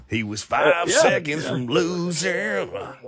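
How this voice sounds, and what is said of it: Country twang delivery. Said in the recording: “Get a little twang going on there.”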